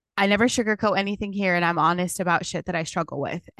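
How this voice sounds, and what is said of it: Shaky, nervous voice. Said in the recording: “you could probably tell my voice is shaking”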